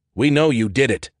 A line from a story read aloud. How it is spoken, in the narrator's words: Ted said sternly